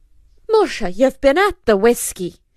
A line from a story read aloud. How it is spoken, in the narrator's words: exclaimed the good lady